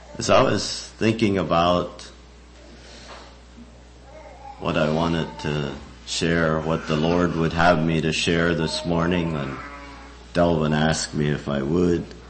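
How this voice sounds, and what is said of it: Rough, hoarse voice. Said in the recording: “I apologize for my voice. I hope you can endure. ... my voice is uh, kind of rough this morning.”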